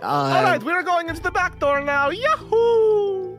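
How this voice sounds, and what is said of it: Put-on Italian video game voice. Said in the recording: “Why does he sound like a video game character? ... he just sounds like an Italian. ... He does sound like an Italian.”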